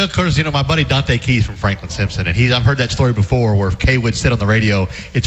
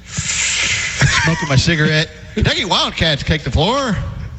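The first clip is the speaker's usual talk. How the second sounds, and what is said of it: Imitates a radio announcer's voice. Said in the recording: “that your Kaywood Leopard impersonation? ... pretty good.”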